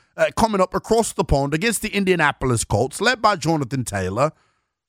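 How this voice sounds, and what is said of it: Bad British accent, sounds Australian. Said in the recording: “I should use a terrible British accent ... That's more of Australian.”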